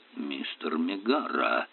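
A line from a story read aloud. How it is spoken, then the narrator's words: Growled. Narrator (Russian): рыкнул Айшем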